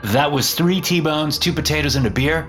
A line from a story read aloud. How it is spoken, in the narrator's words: I asked in a more cheerful tone